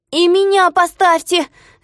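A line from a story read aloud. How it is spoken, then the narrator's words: Shouting. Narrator (Russian): закричал он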